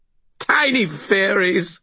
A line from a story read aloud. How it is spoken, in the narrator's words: he giggled